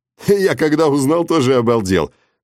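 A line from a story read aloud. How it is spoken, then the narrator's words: Chuckling. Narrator (Russian): хохотнул Игорь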